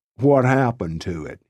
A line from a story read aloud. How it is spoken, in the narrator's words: he asks